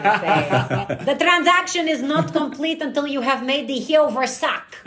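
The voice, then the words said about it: Put-on character accent. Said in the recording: “give me a line from the show in your accent?”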